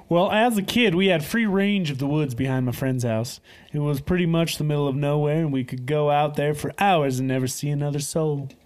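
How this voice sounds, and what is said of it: Put-on redneck accent. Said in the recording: “redneck accent”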